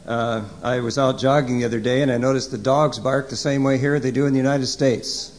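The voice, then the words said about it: American accent. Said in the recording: “this doesn't filter out the American accent.”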